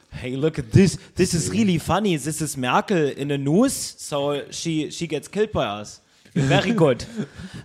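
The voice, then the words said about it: Put-on German accent. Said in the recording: “this is how you actually do a German accent”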